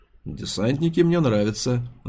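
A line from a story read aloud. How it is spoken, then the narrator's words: Grumbled. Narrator (Russian): буркнул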